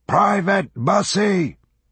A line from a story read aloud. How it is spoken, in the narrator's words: The sergeant bellowing